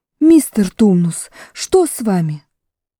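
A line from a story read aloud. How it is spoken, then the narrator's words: Exclamation. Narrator (Russian): тут же воскликнула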